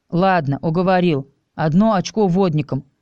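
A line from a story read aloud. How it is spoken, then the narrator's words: Amused snort. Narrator (Russian): хмыкнул мой рыжий друг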